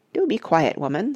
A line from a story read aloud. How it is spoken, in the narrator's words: said Parrot crossly